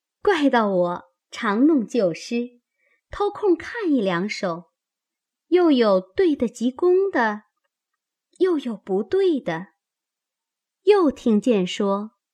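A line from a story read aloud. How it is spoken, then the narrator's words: Laughing. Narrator (Chinese): 香菱笑道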